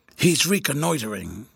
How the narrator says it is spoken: whispered with a hoarse chuckle

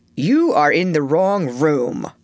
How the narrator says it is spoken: gruffly said

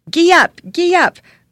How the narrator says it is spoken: cried Prince Dolor in great excitement

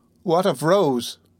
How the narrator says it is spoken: cried the old lady

